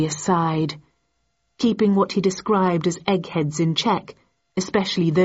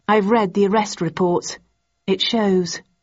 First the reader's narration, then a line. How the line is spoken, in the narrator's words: I replied coldly